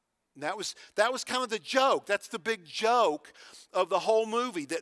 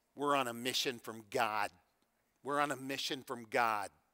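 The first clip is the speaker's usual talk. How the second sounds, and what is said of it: Heavy thick northeastern US accent. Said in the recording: “In a heavy, thick, northeastern accent”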